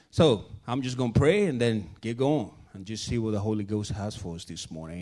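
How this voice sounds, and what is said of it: Thick accent, tired voice. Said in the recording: “I'm a little bit tired, so my accent might be a little bit thicker this morning ... if these words that get muffled”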